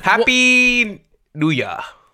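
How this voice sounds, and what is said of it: Put-on accent. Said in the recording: “Was that an accent? ... Yes.”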